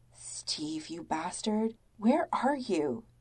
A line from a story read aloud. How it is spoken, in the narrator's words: Tony mutters